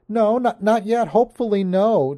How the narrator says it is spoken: Johanna said shakily

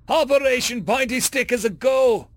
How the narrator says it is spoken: The human grabbed the mouthpiece, set to the intercom and shouted

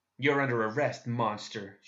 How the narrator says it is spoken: growled

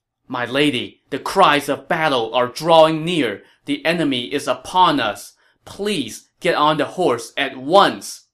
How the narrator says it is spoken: Zhao Yun pleaded

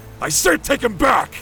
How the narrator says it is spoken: roared

